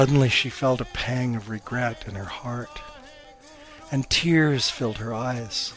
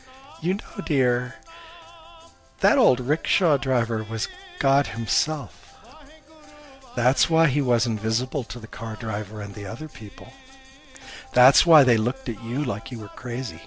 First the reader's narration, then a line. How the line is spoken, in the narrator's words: Her mom chuckled and said